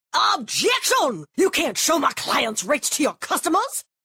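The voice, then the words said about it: Old-timey Southern lawyer voice. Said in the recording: “my impression of me arguing with an old-timey Southern lawyer”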